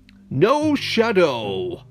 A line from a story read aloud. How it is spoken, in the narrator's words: the groundhog shouted gleefully